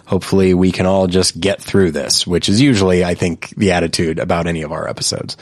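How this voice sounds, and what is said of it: Hoarse, congested voice. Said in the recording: “I will occasionally be coughing off mic, and my voice is a little bit hoarse, ... and I'm a little bit stuffed up”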